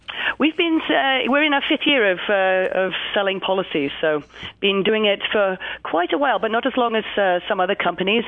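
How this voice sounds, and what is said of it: Strong English accent. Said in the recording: “you have a bit of a strong accent ... I grew up in England”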